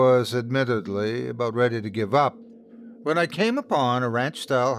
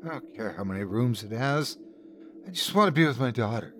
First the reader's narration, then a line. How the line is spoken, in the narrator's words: My wife looked at him with tear-glazed eyes and muttered